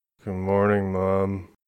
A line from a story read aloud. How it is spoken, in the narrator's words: mumbled